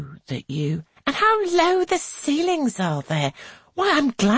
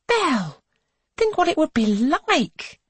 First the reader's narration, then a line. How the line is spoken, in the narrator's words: she exclaims